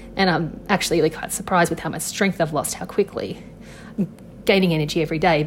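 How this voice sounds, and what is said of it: Rattly voice, Australian accent. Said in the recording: “I cough a lot and you can hear how rattly my voice is ... this Australian accent”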